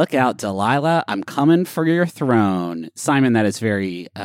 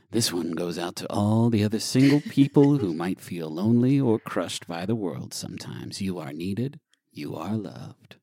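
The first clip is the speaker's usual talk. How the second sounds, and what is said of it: Late night radio DJ voice. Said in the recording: “in like my late night radio DJ voice.”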